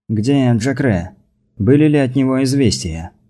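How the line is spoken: Weary. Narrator (Russian): устало спросил Рома

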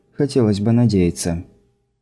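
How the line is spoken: Barely audible, to herself. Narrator (Russian): чуть слышно для себя Скайла добавила

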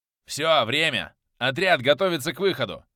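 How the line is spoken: Barked. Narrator (Russian): рявкнул Фитц

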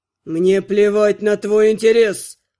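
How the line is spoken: Growled. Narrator (Russian): рыкнул Артур

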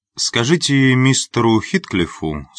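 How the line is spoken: Calm reply. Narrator (Russian): спокойно ответил

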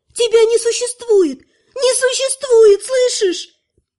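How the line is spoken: Panicked girl screaming. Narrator (Russian): Девушка в панике закричала

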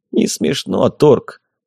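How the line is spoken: Grumbling. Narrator (Russian): проворчал Лосарнах

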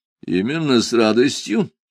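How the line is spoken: Snide clarification. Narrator (Russian): ехидно уточнил я

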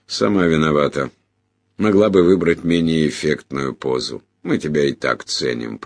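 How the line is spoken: Grumbling. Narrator (Russian): проворчал сэр Джуфин

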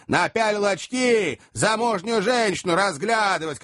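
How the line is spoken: Shouting. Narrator (Russian): кричал третий

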